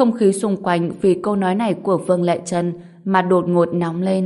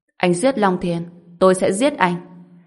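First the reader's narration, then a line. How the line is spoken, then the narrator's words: Cold female voice. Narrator (Vietnamese): Cô lạnh lùng nói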